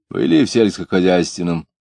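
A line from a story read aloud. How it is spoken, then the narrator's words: Mocking question. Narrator (Russian): спрашивал он, насмешливо кривя губы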